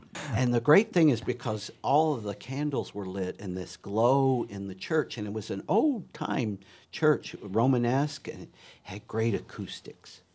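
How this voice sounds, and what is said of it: Kentucky accent. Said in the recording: “my uh, Kentucky accent, you might not get at 10, p.m.”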